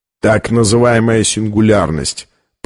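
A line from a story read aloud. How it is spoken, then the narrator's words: Grumbling. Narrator (Russian): проворчал Колер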